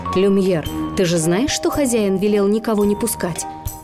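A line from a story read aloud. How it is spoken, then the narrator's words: Grumbling. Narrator (Russian): часы и проворчали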